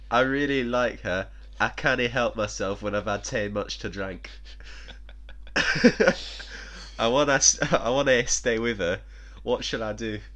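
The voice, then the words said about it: Weak put-on Scottish accent. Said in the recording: “I know that wasn't a Scottish accent... reading like phonetically, it kind of forces me to speak like that... that's not me thinking I can do a Scottish accent, because I know I can't”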